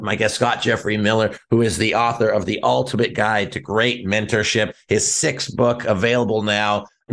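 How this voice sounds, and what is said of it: Podcast radio voice. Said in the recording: “I love your voice. You have like a legitimate podcast radio voice.”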